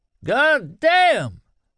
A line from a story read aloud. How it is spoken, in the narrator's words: Norm Bruett shouted, almost screamed